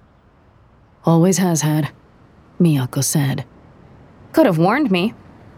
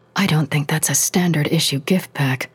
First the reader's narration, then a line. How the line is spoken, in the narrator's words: she whispered